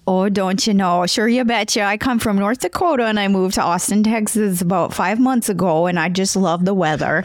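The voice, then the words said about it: Exaggerated regional accent. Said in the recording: “We are joking about accents ... Do the accent, do it.”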